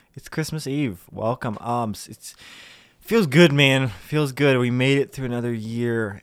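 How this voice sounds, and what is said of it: Congested, stuffy-nosed voice. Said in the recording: “My nose is a little plugged today. ... I've got a bit of a cold”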